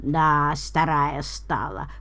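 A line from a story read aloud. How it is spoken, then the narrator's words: Creaky, displeased. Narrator (Russian): проскрипела недовольно Самара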